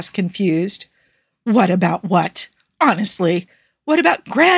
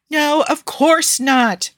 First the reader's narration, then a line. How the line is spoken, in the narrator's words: Fatima sighed loudly